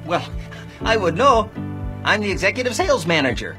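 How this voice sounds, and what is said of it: Minnesota accent from Fargo. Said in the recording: “an accent from Fargo... Oh, Minnesota, so that's very different... stereotypical or exaggerated version of that”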